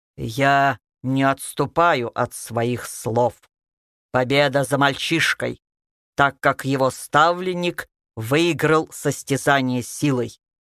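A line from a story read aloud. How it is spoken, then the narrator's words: Loud declaration. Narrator (Russian): громко произнес Анубис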